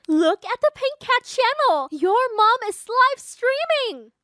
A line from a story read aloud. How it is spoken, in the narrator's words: excitedly said